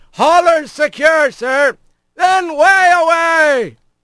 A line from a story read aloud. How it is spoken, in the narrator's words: Olpasco shouted